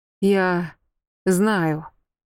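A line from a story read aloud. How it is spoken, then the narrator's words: Furious exhale. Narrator (Russian): выдохнул Вельт яростно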